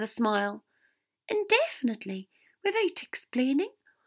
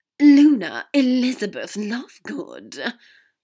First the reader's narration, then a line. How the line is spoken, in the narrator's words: Draco said with a heavy sigh